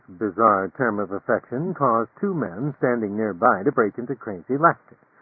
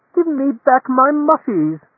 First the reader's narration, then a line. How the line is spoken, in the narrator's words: the lady screamed